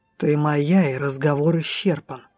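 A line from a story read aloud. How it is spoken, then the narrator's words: Hissed through teeth. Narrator (Russian): прошипел сквозь зубы Дроу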